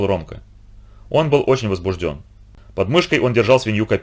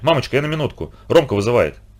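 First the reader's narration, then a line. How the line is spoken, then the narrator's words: Hurried remark while leaving. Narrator (Russian): бросив уже на ходу маме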